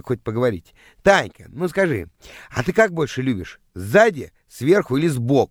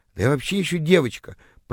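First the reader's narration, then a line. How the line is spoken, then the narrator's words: Confused mumbling. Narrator (Russian): пробормотала растерявшаяся тыква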